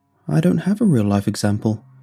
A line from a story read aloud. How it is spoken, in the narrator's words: he said, looking sadly